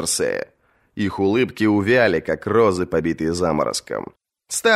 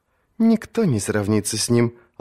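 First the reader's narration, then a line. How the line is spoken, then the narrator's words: Gentle, smiling. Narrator (Russian): ласково улыбнулась Маргари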